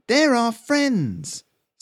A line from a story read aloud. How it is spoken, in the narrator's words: someone in the crowd shouted